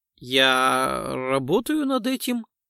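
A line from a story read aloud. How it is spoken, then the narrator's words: Ingratiating, insinuating tone. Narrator (Russian): вкрадчиво ответил нейроконструктор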